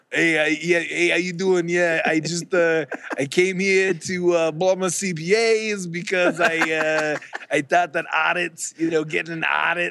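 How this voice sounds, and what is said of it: Put-on New Jersey accent. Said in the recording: “do the New Jersey accent”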